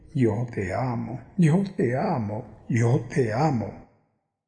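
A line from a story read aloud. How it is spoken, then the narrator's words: Murmuring in ear. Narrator (Spanish): murmurándole al oído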